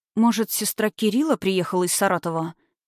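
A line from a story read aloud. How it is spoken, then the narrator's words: Hasty self-reassurance. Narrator (Russian): поспешила успокоить себя Светлана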